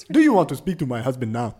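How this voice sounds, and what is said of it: Put-on African accent. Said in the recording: “Can you do that in an African accent?”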